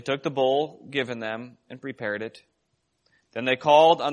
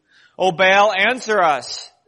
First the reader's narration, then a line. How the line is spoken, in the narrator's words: they shouted